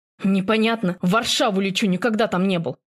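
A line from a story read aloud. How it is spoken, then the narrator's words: Irritated reply. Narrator (Russian): раздраженно отвечаю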